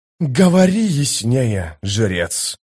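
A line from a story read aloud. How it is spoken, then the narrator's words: Calm. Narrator (Russian): спокойно произнес он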